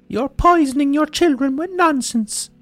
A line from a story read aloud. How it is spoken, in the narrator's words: she'd scream